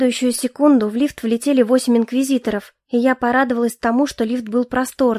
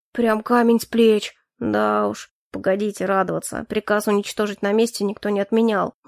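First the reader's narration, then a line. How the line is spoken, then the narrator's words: Displeased grumble. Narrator (Russian): недовольно проворчал Хляйн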